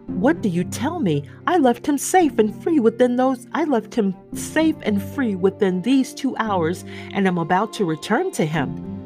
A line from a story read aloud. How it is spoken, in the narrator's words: Struck with consternation, the old gentleman exclaimed